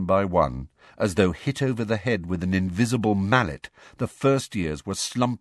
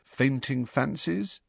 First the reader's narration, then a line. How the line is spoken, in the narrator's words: Harry suggested quietly